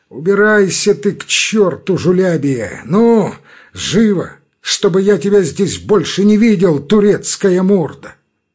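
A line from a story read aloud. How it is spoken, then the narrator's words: Contemptuous drawl, then furious shout. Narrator (Russian): протянул Грузов презрительно и вдруг с мгновенно озверевшим лицом он крикнул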